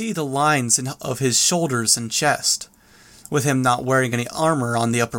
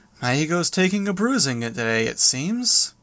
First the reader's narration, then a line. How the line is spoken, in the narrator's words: His tone was light as he said